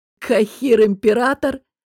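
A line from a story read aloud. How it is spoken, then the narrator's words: Laughing. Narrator (Russian): рассмеялся Раф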